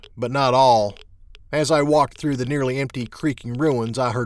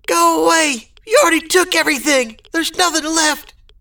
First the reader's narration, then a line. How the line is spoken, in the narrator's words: Tears were welling up in his eyes as he screamed